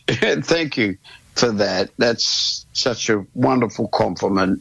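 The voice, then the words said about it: Emotional, choked-up voice. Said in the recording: “I'm emotional, just a little bit emotional.”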